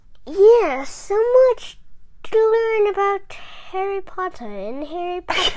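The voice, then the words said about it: Put-on English accent. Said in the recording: “Are you trying to do an English accent?”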